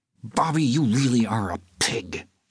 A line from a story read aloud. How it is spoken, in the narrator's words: she said through clenched teeth